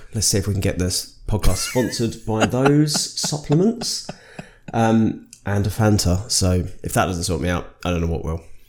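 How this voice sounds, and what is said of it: Tired-sounding Birmingham accent. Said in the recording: “that is why I sound like this... Nobody likes listening to the Brummies... I sound terrible... I'm tired and I'm not on my best form”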